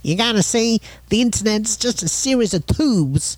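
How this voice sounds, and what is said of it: Put-on Southern accent, Daffy Duck-like. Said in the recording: “very good Southern accent, by the way... you went into Daffy Duck a little bit there”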